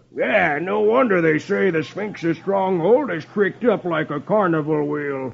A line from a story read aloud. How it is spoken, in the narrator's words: Brimstone exclaims